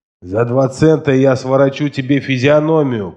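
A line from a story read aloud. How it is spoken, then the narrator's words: Growled threat. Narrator (Russian): прорычал он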